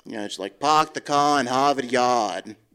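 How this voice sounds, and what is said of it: Kennedy impression, Boston accent. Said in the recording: “your Kennedy impression”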